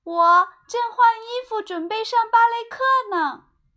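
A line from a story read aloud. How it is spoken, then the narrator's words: Shouting from upstairs. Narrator (Chinese): 小熊妹妹从楼上喊道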